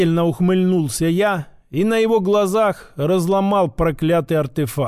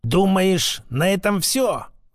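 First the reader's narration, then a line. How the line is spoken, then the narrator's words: Angry old man's breath. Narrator (Russian): зло выдохнул старик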